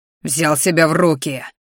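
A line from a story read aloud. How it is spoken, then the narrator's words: Growled. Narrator (Russian): рычал мой ящер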